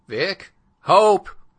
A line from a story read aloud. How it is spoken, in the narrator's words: shouting their names